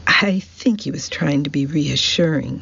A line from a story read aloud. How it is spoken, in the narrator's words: said, laughing